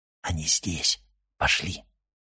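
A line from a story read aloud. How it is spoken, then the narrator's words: Whisper. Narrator (Russian): прошептал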